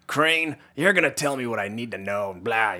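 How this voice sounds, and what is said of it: Gruff, gritty character voice. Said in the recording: “pretty good voice impression ... one octave higher than the usual gruff action hero”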